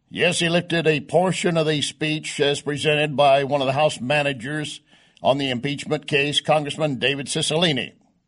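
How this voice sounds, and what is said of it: Hoarse, strained voice. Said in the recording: “I'm already losing my voice. ... I've been almost screaming at the wall”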